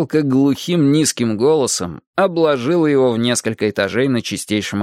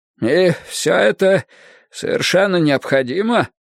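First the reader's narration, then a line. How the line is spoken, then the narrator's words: Hoarse, distorted voice. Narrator (Russian): Голос Беррисфорда по-прежнему звучал хрипло и искаженно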